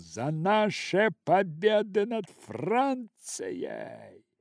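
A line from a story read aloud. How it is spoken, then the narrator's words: Drunk, excited patriotic shout. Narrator (Russian): лейтенант Отто, напоминавший собой шварцвальдского медведя, возбужденный, упившийся и в порыве патриотизма, крикнул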